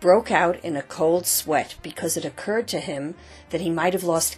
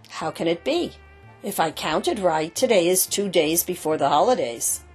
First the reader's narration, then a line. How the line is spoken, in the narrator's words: Antosh spat angrily